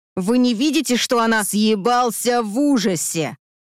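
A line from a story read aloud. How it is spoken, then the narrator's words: Growled. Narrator (Russian): Рыкнул Андрей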